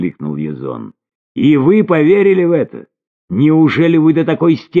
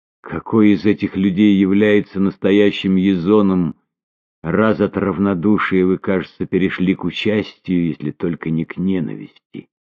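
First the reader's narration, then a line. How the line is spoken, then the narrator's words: Hesitant, then firm, then tender. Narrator (Russian): Перед последним словом запнулась, однако произнесла его твердо, затем более нежно добавила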